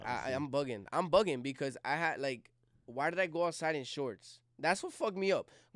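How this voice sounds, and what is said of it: Phlegmy, congested voice. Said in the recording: “Yo, I'm so phlegmy... I can hear it in your voice.”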